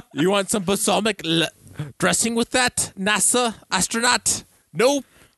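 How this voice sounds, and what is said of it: Put-on French-sounding accent. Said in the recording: “This is a French accent you guys are doing ... This isn't quite Russian”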